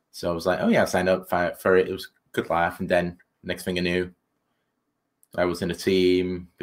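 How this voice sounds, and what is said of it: European-sounding accent. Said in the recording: “It's the accent... If I could say anything in this accent, either I sound hysterical or smart”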